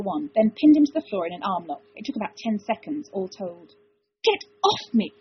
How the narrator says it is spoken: Caldwick hissed

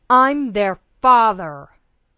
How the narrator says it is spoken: John roared

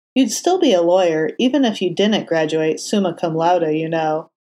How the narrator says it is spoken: Foggy said, his tone tentative

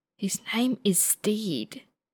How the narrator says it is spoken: someone hisses

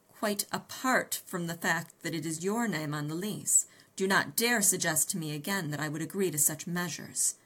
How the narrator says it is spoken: I returned harshly, terrified at the thought of life at Baker Street, life in London, without my new friend Sherlock Holmes in it

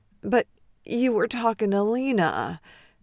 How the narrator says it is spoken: he groans

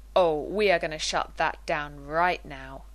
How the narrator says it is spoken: John growled

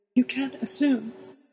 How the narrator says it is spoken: added in a shaky voice

